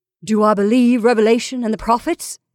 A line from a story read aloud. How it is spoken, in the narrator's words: He cried